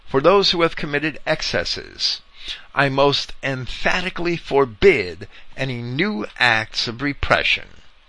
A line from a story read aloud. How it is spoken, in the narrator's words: exclaimed